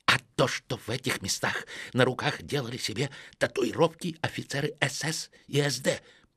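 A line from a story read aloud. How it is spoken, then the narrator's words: Lowered to a whisper. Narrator (Russian): понизив голос до шепота, произнес Стефан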